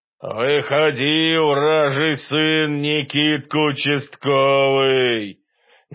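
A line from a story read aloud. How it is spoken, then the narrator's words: Muffled rattling boom, distant. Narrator (Russian): Глухо, с каким-то неприятным дребезжанием, прогромыхало с того берега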